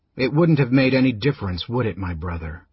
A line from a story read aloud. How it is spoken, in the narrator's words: Raistlin asked softly